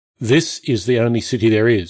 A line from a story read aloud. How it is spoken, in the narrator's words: Caesar said flatly